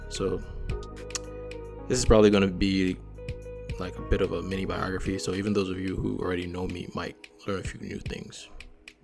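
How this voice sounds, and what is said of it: Nigerian-American accent. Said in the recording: “my accent, I'm Nigerian. Nigerian-American”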